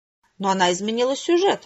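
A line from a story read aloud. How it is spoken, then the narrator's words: Angry outcry. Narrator (Russian): сердито вскричал Твит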